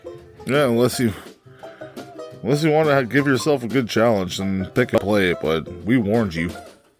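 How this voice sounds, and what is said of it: Flat monotone delivery. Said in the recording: “You could tell by my monotone voice”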